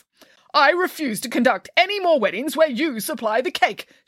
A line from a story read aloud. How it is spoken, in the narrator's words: shouted the vicar